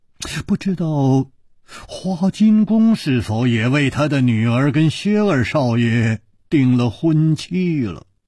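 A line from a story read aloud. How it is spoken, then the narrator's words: Murmuring. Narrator (Chinese): 楚留香喃喃地说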